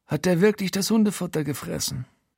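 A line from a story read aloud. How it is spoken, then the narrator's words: Quiet but audible. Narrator (German): Frankie sagt leise, aber trotzdem für mich hörbar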